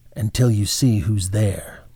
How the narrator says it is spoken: she said in a low voice

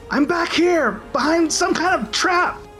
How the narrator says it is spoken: yell out

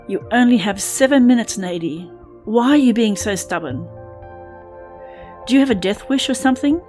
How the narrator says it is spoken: screamed Katie at the top of her lungs

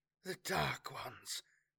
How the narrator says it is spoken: breathed at the first terrible sight of their attackers

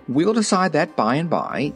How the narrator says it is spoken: said King Roquat hastily

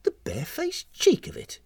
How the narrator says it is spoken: she muttered

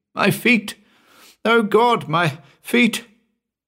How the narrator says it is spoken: he kept up a continual moaning

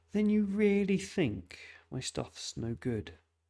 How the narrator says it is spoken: tired and exasperated, laughed

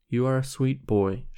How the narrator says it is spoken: she said

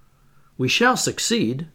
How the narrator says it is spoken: I said, after having anxiously watched the result of the operation

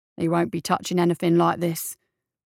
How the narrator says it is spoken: the marshal said

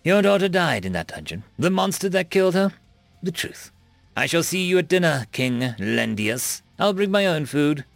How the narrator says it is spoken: Surma echoed with a derisive laugh

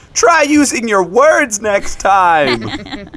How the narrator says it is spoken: shout

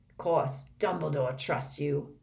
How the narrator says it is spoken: growled Moody

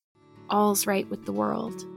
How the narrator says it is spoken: whispered Anne softly

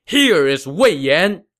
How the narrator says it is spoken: a rider suddenly darted out from the woods, shouting

